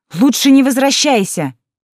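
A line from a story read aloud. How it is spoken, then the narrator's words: Shouted after. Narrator (Russian): крикнула ей вслед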